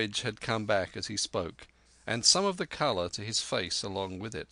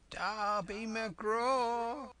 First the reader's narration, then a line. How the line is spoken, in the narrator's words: wailed